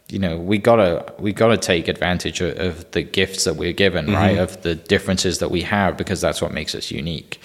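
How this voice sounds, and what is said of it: Mild Welsh accent. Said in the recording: “I still have my accent. ... it's not as thick as it was once was ... the Welsh guy”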